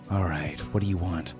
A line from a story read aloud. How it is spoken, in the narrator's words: sighed